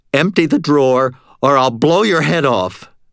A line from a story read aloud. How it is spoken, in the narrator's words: I shouted